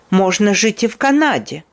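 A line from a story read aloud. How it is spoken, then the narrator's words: Angry. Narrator (Russian): злобно сказала мадам Резо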